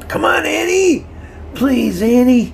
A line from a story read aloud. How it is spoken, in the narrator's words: Davy cried out, his face red with tears